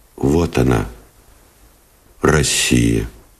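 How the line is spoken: Quiet and serious. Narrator (Russian): тихо и серьезно сказал Новиков

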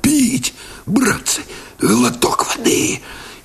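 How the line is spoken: Hoarse, parched rasp. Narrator (Russian): Парахонько повалился на землю, кусая сухие, обметанные копотью губы, просипел

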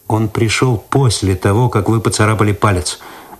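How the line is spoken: Calm objection. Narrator (Russian): спокойно возразил Цветков

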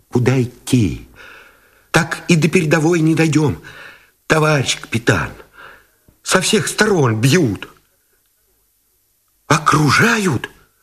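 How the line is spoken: Frightened, breathless mumbling. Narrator (Russian): Тот, испуганно, сдерживая дыхание, забормотал

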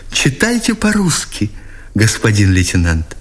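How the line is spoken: Exclamation. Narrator (Russian): воскликнула она

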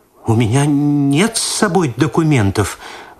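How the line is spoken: Frightened faltering murmur. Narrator (Russian): в испуге пролепетала Татьяна Спиридоновна

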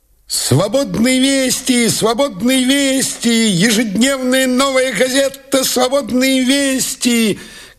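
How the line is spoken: Boy shouting. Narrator (Russian): кричал газетчик-мальчишка

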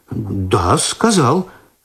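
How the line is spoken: Confused confirmation. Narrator (Russian): растерянно подтвердил Починский

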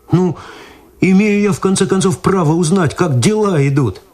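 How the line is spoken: Pleading. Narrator (Russian): взмолился Виталий

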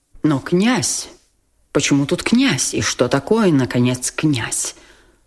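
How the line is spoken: Muttering with barely restrained indignation. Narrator (Russian): пробормотал генерал, почти уже не в силах сдержать негодование на такой обидный даже авторитет князя

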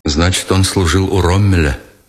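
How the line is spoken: Plain. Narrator (Russian): сказал Никитин

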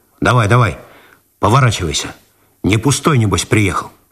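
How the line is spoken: Rude. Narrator (Russian): он грубо добавил

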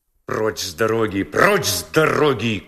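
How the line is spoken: Rough shout. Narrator (Russian): грубо крикнул полисмен

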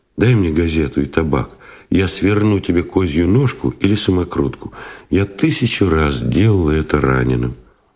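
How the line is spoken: Soft request. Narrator (Russian): попросила мягко

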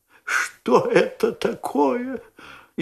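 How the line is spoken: Frightened whisper. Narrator (Russian): испуганным шепотом спросила леди

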